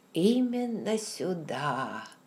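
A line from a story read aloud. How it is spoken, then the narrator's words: Dreamy. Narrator (Russian): произнес он мечтательным тоном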